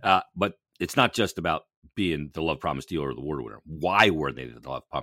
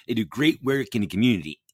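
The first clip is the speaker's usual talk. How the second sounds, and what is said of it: Imitates another person's voice. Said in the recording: “my Don Tolleson impression”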